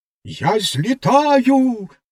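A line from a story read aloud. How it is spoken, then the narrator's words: Exclaiming. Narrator (Ukrainian): вигукнула вона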